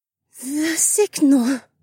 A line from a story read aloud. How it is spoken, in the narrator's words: the alien said in a shaky voice